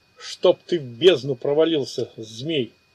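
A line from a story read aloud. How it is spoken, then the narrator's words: Grumbling. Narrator (Russian): пробурчал Ичиро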